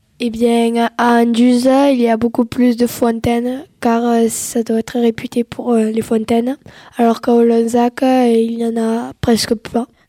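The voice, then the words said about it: Strong regional southern French accent. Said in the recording (French): “À Olanzac, nous avons un accent beaucoup plus prononcé ... Et Olanzac, c'est dans l'Hérault”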